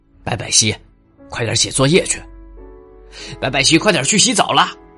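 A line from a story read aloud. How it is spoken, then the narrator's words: Loud shouting. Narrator (Chinese): 爸爸大声的对他喊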